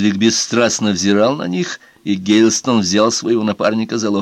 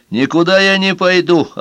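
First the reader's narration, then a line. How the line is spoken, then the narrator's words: Snapping retort. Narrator (Russian): огрызнулся Ферри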